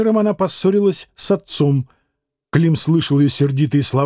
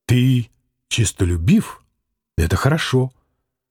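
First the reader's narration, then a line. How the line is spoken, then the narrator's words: Mother's gentle soothing. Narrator (Russian): Мать ласково, успокаивая его, сказала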